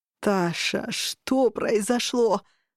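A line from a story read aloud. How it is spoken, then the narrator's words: Groaning. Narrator (Russian): застонал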